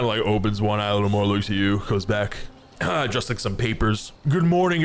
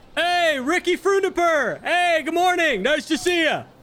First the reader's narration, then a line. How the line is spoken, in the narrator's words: I yell